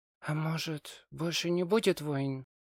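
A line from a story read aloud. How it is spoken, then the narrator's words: Quiet. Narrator (Russian): тихо сказала она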